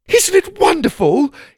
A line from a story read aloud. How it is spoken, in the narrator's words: He exclaimed